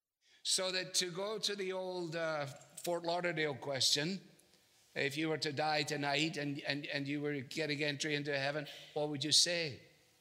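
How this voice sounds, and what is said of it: Scottish accent. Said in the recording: “the guy has a Scottish accent”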